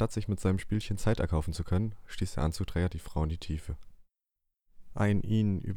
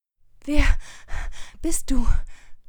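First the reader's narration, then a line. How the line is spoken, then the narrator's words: Panting with exertion. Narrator (German): Sie keuchte vor Anstrengung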